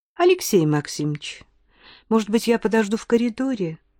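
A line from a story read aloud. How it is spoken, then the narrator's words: Timid speech. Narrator (Russian): Робко проговорила женщина с косами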